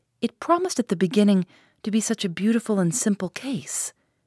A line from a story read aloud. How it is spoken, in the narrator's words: sighed the magistrate